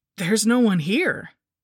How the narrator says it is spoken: I exclaimed in surprise

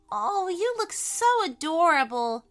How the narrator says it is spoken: cried Elliot

